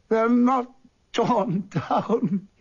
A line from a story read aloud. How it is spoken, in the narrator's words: he cried